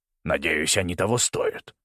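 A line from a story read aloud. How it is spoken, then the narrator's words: Mutter. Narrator (Russian): пробормотал он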